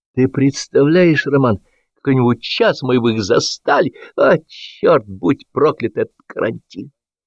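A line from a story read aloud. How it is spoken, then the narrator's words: Exclaiming. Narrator (Russian): он это воскликнуть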